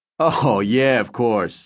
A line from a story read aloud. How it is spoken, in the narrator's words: Milo said, chuckling